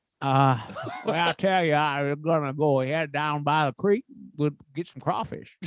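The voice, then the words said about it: Put-on Southern American accent. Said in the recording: “my Southern accent ... do a Johnny impression real quick. Talk like me, you think I sound. ... that Southern style. That Southern swagger”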